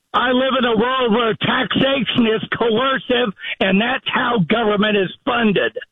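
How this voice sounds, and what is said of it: Yelling, raised angry voice. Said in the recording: “What are you yelling at me for?”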